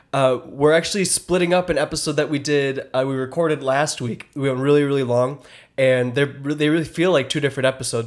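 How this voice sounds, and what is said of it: Hoarse, sick, low-energy voice. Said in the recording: “you can actually tell by my voice. I'm like, I'm pretty sick. ... I basically lost my voice. ... My throat got all swollen. I got that throat virus. ... really low energy today.”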